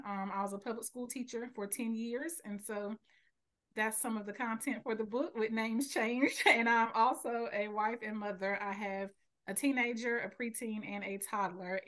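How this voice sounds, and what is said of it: North Carolina accent. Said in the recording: “I live in North Carolina. I was raised here. And so, excuse the accent”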